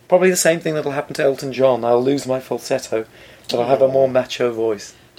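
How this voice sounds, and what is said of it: Croaky voice. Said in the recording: “a croaky voice ... When you try to do high ranges, you just make gaspy sounds.”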